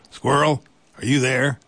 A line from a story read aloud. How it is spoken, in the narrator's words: he called out